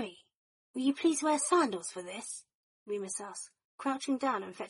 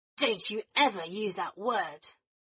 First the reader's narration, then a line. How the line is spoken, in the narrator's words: Sirius snarled at Draco